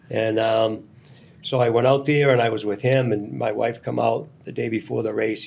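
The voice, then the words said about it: Boston accent. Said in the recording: “with the accent”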